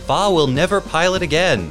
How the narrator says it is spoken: shouting

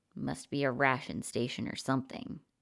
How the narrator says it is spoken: he muttered, mostly to himself

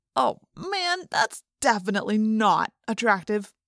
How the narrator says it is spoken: Marco groaned from the shore

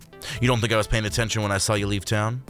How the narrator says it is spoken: Commander Rose barked

